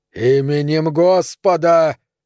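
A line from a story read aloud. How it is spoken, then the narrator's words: Sudden shout. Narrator (Russian): внезапно закричал он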